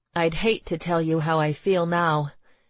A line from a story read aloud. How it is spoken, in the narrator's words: Marie sighed